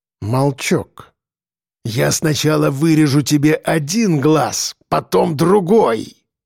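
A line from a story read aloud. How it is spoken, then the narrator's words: Hoarse rasping threat. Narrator (Russian): хрипел зэк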